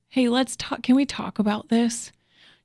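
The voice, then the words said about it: Soft, gentle voice. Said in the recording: “in a soft voice”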